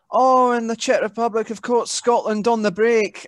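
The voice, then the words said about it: Imitates a Scottish football commentator. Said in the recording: “every pundit, every commentator was Scottish ... fantastic impersonation.”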